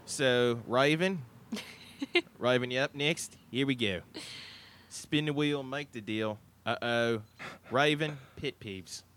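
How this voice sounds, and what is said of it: Put-on Australian accent. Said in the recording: “I'm going to go Aussie because it's kind of easier ... for the remainder of the show, I have to speak in an Aussie accent”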